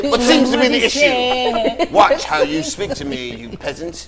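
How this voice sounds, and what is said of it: Put-on posh rich man accent. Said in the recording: “Rich white man style ... my accent, my accent gonna change when I put it on”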